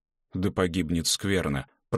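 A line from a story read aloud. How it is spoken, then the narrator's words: Muttered. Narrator (Russian): пробормотал баскетболист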